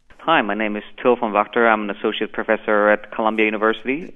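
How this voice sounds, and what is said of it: German accent. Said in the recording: “Now we get to have a German accent too.”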